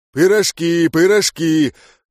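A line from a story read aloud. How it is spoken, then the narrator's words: Man's deep bass voice. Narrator (Russian): Пробасил мужик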